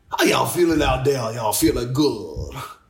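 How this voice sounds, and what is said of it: Put-on Southern bayou accent. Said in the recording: “He had a bayou accent ... a quote he said directly in his accent”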